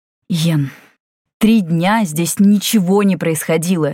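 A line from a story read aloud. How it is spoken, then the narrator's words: Barked. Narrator (Russian): рявкнул Валифор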